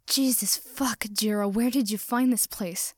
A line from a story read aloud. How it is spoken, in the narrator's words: He gasped